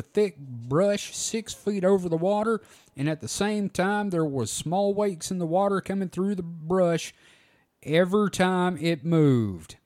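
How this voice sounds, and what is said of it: Attempted Louisiana accent. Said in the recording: “I'm highly, highly insulted by that accent, because nobody in Louisiana sounds ... It's more like drawl Cajun.”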